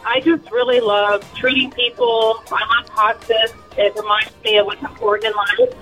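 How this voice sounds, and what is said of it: Emotional, slightly shaky voice. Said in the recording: “I'm a little emotional”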